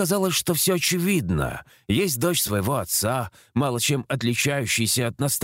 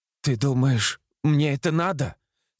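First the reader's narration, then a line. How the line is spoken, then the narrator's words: Tearful voice. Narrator (Russian): Сквозь слезы произнесла Таня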